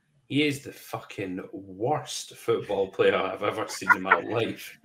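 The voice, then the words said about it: Put-on Scottish accent. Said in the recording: “he can do the accent, because she's Scottish”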